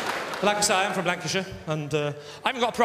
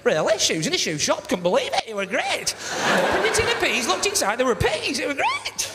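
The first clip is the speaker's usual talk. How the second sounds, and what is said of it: Exaggerated surprised Lancashire accent. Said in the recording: “proper Lancashire accent ... proper Lancashire, of course, is surprised to hell about everything all the time, innit?”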